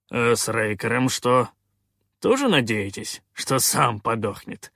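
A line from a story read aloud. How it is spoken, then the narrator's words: Smirking. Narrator (Russian): хмыкнул Калаан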